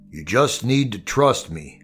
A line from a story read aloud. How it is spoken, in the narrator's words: he said, and then his voice deepened, sticking in his throat as the words came